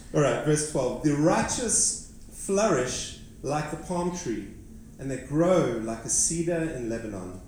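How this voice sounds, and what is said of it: Non-American foreign accent. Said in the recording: “Can you all understand my accent? ... One day I want to preach with an American accent. But I'm not there yet.”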